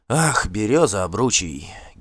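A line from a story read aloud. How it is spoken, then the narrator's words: Weary sigh. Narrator (Russian): Гельт вздохнул, устав от бесполезного спора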